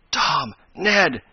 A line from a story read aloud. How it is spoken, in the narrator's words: he gasped rather than cried